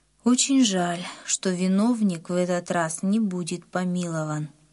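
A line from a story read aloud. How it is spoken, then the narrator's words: Sad. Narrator (Russian): Папа печально сказал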